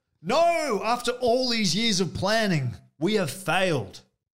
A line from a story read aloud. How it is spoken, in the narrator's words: yelled Mr